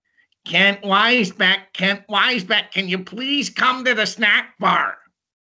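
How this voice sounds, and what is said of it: Imitates another person's voice. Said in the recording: “this is how it would sound... my best imitation”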